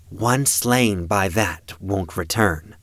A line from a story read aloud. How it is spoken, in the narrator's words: she said